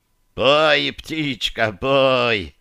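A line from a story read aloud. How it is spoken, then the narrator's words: Good-natured laugh. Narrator (Russian): Без малейшей обиды в голосе рассмеялся главный инквизитор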